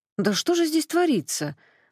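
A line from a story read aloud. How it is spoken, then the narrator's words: Exclamation. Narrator (Russian): воскликнула Ксюха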